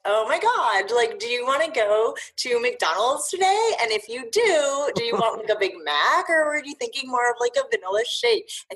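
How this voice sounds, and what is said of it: Valley Girl voice. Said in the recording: “random voices ... mostly it was just like the Valley Girl voice ... I haven't busted that one out in a while, so I think it needs a little bit of work”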